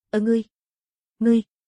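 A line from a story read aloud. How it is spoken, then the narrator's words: Terrified trembling voice. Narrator (Vietnamese): Cường giả dực tộc kinh hãi, giọng run rẩy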